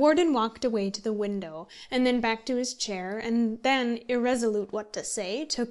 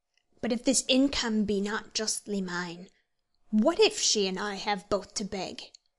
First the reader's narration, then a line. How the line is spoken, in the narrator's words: said the warden at last, sharply, and in a voice so different from that he had hitherto used, that Sir Abraham was startled